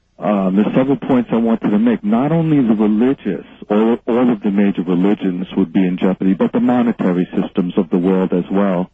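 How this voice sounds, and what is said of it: Loud New York-accented speech. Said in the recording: “Maybe I'm talking too loud. I'm like from New York. I talk too loud.”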